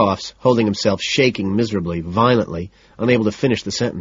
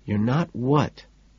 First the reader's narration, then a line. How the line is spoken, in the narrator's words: I ask softly